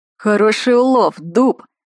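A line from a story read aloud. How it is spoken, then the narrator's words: Deep bass voice, big man. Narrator (Russian): пробасил здоровенный детина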